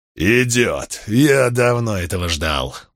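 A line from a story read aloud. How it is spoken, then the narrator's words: Growled. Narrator (Russian): прорычал Крикс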